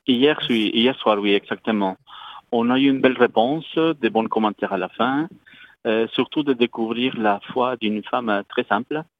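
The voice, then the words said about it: Slight Colombian accent in French. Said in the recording (French): “missionnaire lazariste d'origine colombienne... vous allez entendre un petit accent quelque part... Oui, on entend.”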